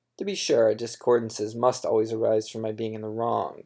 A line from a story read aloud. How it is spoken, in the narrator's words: she said